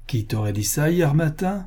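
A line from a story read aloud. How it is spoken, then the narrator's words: Mocking tone. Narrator (French): commença-t-il d'un ton railleur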